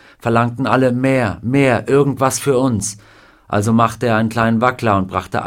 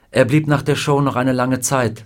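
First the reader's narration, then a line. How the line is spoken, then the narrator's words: Plain. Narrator (German): sagte Carla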